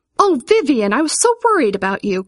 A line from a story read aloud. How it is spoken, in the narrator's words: cried her mother